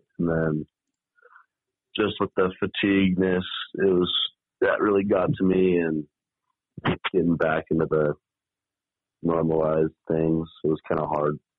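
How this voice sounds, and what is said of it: Pleasant radio-style speaking voice. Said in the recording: “you got a pretty good radio voice. ... you got a good voice.”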